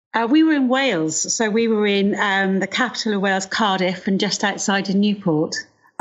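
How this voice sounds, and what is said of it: Welsh accent. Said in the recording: “Now I can hear your accent... Welsh twang kicking in there.”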